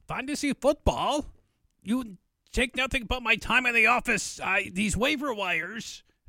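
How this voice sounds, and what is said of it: Put-on British accent drifting Scottish. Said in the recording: “Monty Python British accent ... This is more Scottish, I think.”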